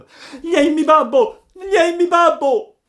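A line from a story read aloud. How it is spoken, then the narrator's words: Piercing shriek. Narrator (Italian): Pinocchio cacciò un urlo acutissimo gridando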